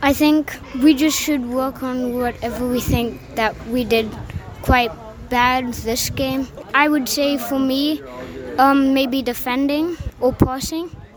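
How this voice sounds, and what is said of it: Slight non-local accent. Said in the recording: “I'm getting a little bit of an accent.”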